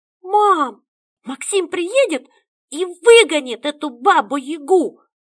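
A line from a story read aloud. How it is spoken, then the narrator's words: Sudden shout, daughter. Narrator (Russian): Вдруг выкрикнула дочь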